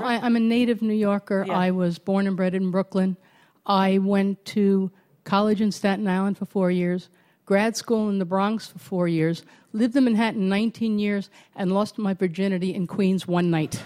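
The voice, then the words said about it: Brooklyn New York accent. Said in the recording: “genuine Brooklyn accent. ... Genuine Brooklyn accent.”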